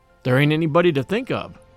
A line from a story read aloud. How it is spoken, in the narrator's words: replied Captain Cephas